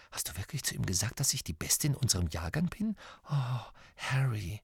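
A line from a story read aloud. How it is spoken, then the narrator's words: Joyful whisper. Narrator (German): Hermine drehte sich freudestrahlend zu Harry um und flüsterte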